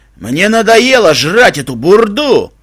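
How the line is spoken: Stallion shouting. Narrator (Russian): кричал широкоплечий жеребец

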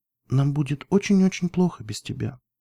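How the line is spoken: Quiet. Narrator (Russian): тихо проговорила она

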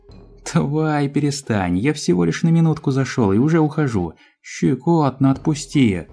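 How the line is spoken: Laughing. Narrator (Russian): смеялся он

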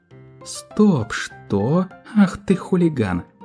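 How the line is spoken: Pony laughing. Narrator (Russian): рассмеялась пони

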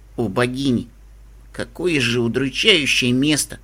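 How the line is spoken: Muttered. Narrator (Russian): Пробормотала я

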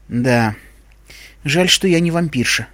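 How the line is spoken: Sighing. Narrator (Russian): вздохнула Искорка

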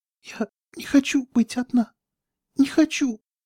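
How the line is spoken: Fading sobs, regaining composure. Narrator (Russian): Рыдания становились все тише, Твикс возвращала контроль над собой

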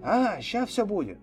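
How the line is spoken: Cheerful reply. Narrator (Russian): он весело откликнулся

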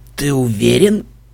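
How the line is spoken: Hoarse question. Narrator (Russian): севшим голосом спросил Себастьян

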